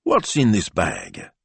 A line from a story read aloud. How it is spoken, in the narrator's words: Signor Speranza asked Carlotta crossly